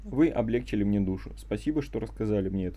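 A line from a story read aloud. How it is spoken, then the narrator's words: Plain. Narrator (Russian): сказал мне Бен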